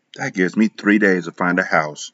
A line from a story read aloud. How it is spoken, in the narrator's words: I whispered